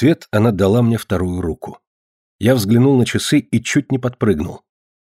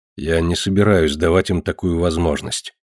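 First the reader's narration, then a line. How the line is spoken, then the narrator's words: Gloomy remark. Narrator (Russian): мрачно заметил я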